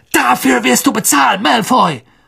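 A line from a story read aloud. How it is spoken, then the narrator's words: Shouting. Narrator (German): Ron schrie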